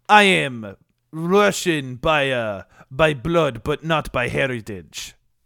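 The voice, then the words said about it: Put-on Russian accent. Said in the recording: “Are you Russian? ... Do you have a voice changer on? ... I am very good at impersonations ... one Russian character”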